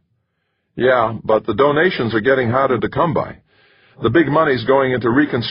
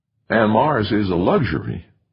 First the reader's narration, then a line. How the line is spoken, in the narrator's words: the Navajo president murmured